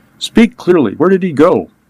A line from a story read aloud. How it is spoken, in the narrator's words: Agostino gasped out